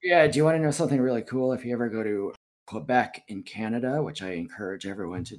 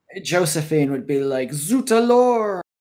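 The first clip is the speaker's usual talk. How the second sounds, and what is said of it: Put-on French accent. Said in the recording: “That's my impersonation of a French person ... That's pretty good.”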